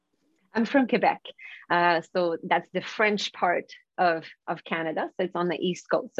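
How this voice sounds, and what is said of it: Non-Vancouver accent. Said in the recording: “with your accent, that's not a typical Vancouver accent.”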